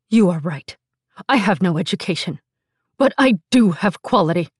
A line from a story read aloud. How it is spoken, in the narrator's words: Lauren spat back